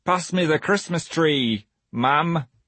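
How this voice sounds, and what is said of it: Bad put-on northern English accent. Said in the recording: “how bad that northern accent was”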